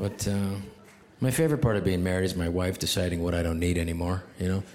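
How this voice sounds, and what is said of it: Usual voice. Nothing is said of it.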